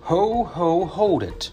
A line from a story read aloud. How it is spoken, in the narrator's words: cried the elf